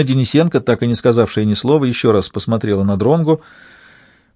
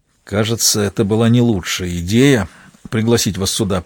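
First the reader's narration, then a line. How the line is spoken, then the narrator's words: Through clenched teeth. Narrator (Russian): признался он сквозь зубы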